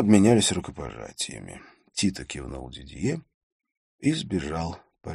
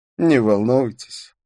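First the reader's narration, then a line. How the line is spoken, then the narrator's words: Laughing. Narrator (Russian): рассмеялся он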